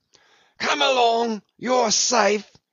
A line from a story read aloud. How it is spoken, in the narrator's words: yelled Brown